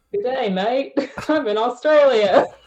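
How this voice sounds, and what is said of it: Poor put-on Australian accent. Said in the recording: “That's terrible. I can't do a better Australian accent than that.”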